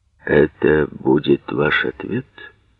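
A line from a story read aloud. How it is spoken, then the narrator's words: Quiet question, young man. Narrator (Russian): Тихо спросил парень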